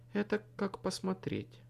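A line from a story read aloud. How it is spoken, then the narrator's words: Soft objection. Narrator (Russian): мягко возразила она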